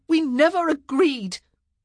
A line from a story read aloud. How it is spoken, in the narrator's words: Penelope cried out again, needing to make it clear that she had not broken her word